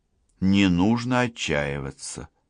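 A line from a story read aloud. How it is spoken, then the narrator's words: Tender, smiling. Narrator (Russian): ласково улыбнулась Лана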